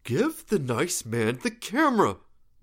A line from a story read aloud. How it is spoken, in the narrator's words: Ben said, through clenched teeth